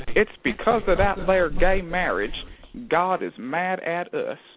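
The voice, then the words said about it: Put-on Southern US accent. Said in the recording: “I always go to the southern accent when I do that.”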